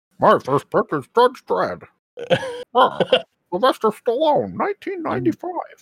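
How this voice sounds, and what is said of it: Imitates another person's voice. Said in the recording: “do an impression of David doing it, but not robot ... You're nailing it, man. ... It sounds exactly.”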